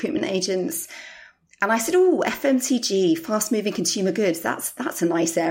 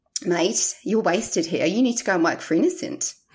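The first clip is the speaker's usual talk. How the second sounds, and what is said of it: Put-on New Zealand accent. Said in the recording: “from New Zealand, so forgive my highly dodgy accent ... pretty good accent”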